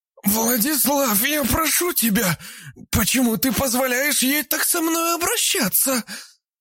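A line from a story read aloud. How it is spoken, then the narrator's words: Hoarse wheeze. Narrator (Russian): прохрипела Альбина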